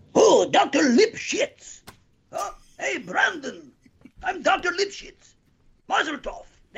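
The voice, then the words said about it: Pirate-like comic character voice. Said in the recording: “Dr. Lipschitz sounds like a pirate. ... Also sounds like Turkish Lumens”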